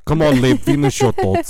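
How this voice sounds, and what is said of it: Put-on Moldovan accent. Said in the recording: “he's from Moldova. And he talks like this ... Is it offensive to Moldovans that I'm doing this accent”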